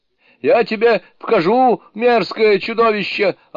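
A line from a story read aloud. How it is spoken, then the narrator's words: Yelling. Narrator (Russian): орал Джубадзе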